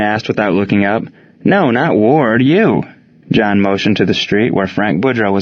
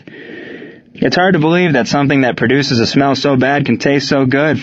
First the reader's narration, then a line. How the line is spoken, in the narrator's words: Frank called out